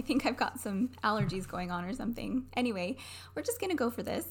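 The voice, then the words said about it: Slightly raspy voice. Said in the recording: “excuse my voice today. It's a little raspy.”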